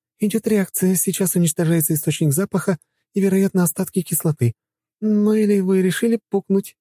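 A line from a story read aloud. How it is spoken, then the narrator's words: Giggling. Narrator (Russian): хихикнула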